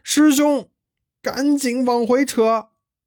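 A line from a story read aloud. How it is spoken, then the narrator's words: Urgent call. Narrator (Chinese): 急回头叫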